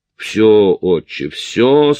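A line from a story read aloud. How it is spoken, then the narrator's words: Through gritted teeth. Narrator (Russian): сквозь зубы процедил я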